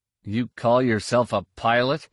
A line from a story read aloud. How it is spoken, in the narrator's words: Han grumbled